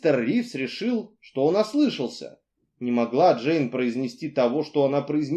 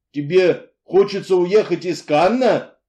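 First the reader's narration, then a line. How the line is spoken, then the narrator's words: Incredulous exclamation. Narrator (Russian): воскликнул он, не веря своим ушам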